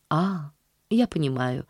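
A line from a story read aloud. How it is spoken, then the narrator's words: Very gentle reply. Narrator (Russian): ответила мисс Полли очень мягко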